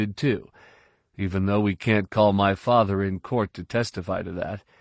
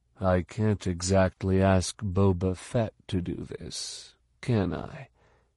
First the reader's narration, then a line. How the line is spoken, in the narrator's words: Jason said quietly